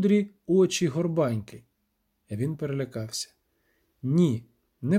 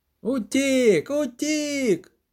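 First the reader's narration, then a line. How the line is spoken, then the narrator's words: Priest shouting. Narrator (Ukrainian): закричав жрець Креп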